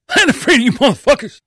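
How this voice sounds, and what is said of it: Imitates another person's voice. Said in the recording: “That was a good impression. ... Oh, I can do a Bernie Mac. ... That's exactly how he talks.”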